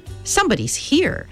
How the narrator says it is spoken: Charles Wallace said sharply

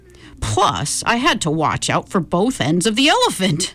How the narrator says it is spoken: Grandpa chuckled

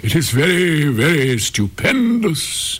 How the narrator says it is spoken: exclaimed the courtiers, for everyone was equally delighted

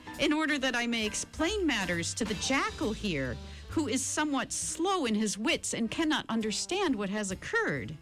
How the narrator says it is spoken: pleaded

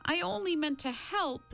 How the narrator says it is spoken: the medium wailed

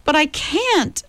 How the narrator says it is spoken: Charles Wallace cried in an anguished voice

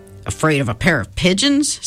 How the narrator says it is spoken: scoffed Mr

